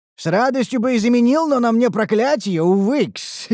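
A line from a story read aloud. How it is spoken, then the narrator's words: Nasty laugh. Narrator (Russian): Рассмеялся мерзким смехом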